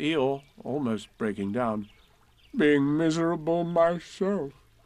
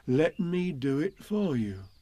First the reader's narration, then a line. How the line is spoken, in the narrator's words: said Pooh kindly